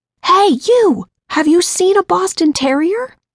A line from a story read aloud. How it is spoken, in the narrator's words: screaming to them from my open window